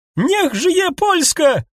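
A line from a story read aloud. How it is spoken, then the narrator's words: Shouted. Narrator (Russian): крикнул Ксёнс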